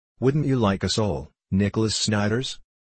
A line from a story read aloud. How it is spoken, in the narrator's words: asked